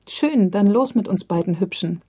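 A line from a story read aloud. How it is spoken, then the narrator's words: Woman's very shrill laugh. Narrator (German): lacht die Frau sehr schrill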